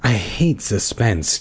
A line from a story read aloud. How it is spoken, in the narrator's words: Terry moaned